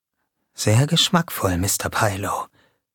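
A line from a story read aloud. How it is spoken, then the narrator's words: Whispering. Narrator (German): wisperte Jamie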